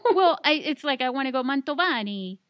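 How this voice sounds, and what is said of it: Put-on Italian accent. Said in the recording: “Italian accent.”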